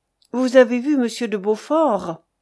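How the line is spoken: Unctuous, soft tone. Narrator (French): dit-elle d'un ton onctueux et doux

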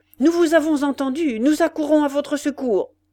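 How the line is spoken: Shouted. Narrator (French): cria-t-il

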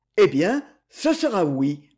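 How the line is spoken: Stammering. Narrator (French): bégaya-t-il

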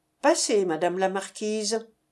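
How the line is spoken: Cold reply. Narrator (French): répondis-je froidement

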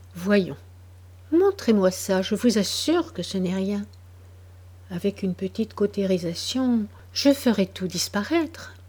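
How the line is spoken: Soft, consoling voice. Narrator (French): Le médecin, d'une voix douce, consolante

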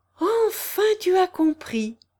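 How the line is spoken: Enthusiastic exclamation. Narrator (French): s'écria Kirillov enthousiasmé

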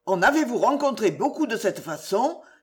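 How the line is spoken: Exclaiming. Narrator (French): s'écria

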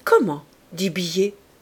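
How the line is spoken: Confused stammer. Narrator (French): balbutia-t-il, ne comprenant plus

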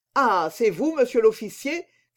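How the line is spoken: Exclaimed. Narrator (French): s'écria-t-il

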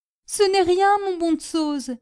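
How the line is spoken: Still sobbing. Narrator (French): dit Prudence en sanglotant toujours

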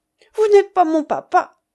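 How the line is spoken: Child's exclamation. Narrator (French): s'écrie petit bonhomme

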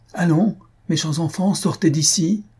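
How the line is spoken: Exclaiming. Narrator (French): s'écria Louise

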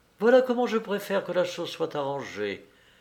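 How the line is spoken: Cold. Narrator (French): répondit-elle froidement

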